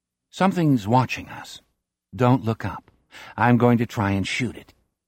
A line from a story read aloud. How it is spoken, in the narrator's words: Jack says in a conversational voice